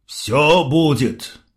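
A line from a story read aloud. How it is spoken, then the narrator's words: Gloomy reply. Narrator (Russian): мрачно ответил Фомин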